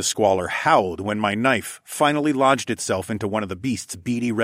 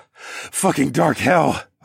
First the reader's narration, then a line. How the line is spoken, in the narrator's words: I panted